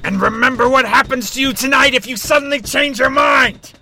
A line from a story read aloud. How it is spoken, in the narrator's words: Marshall roared